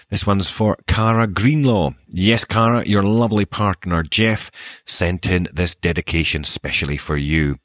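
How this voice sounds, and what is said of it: Soft Scottish accent. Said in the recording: “I promise to keep my accent exactly as it is ... another person who enjoys a soft Scottish accent”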